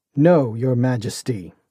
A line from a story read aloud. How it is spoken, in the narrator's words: he growled